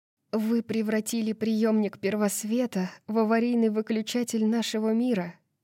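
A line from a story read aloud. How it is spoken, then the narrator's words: Breathless exhale. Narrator (Russian): выдохнула Брайс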